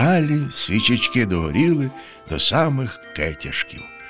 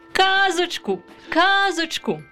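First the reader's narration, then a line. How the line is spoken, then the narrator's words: Children shouting. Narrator (Ukrainian): закричали діти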